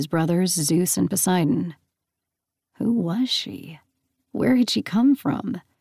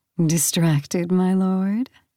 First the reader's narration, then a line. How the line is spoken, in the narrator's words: she purred, amused